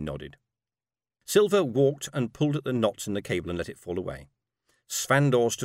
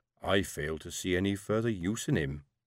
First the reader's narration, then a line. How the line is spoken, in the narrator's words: she added, as she lowered her voice